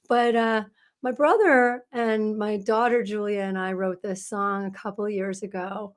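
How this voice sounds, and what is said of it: Hoarse, croaky voice. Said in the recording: “She can barely talk today ... Jeremiah was a bullfrog, but he gave me his voice. So I'm a little bullfroggy today.”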